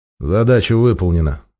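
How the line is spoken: Tired reply. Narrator (Russian): устало ответил 13-й

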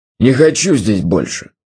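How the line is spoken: Growled. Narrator (Russian): зарычал он

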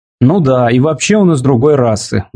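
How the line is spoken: Tired joking. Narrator (Russian): устало пошутил Африэль

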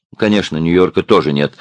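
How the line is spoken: Stern. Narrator (Russian): строго произнесла она

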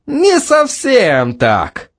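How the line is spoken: Laughing. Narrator (Russian): Керл рассмеялся

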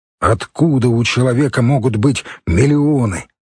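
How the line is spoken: Indignant question. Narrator (Russian): возмущенно спрашивал он

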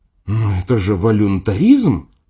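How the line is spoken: Indignant. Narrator (Russian): сказала она возмущенно

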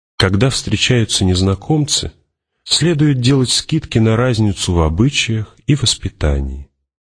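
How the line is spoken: Hidden venom. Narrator (Russian): скрытый в его голосе яд

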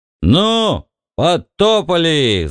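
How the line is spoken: Yelled. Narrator (Russian): заорал Бикс

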